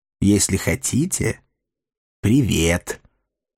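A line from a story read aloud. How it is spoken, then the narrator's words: Sarcastic creaking skull. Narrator (Russian): саркастически проскрипел череп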